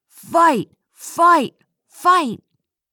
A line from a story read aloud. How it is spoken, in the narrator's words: the boys were shouting